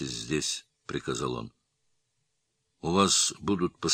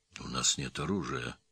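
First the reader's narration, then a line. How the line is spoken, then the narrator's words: Quiet. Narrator (Russian): тихо сказал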